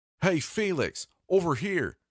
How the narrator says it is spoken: yelled at someone I couldn't see

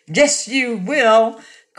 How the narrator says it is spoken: cried Dorothy

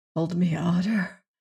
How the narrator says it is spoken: whispered Francisco

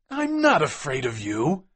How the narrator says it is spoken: cried McMurdo

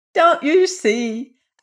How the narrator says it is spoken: asked Dixie, who had laughed even harder than the others

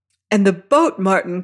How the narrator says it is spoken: cries she, as we rose on a hissing wave-crest

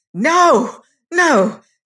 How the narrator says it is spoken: shouted Bellingham

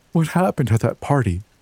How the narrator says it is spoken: Jade whimpered, her lower lip trembling

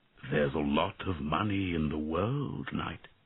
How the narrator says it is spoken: answered the dragon sadly

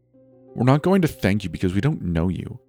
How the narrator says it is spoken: Noah spat back

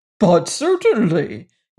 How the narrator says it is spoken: replied pompously

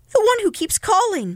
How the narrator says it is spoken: Miss Keene cried

